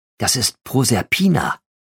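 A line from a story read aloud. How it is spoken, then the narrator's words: Whispered. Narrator (German): flüsterte Jean Mercier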